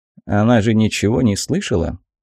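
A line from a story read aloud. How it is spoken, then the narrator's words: Quiet, nervous question. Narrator (Russian): тихо спросил у меня слегка побледневший Рью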